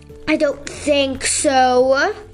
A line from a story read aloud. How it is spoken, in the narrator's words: growled Fenrir